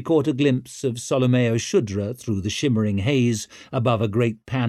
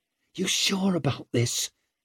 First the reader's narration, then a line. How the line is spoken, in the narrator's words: Tallow hissing in her ear over the rattle of pans, spoons, knives, the calls of the hawkers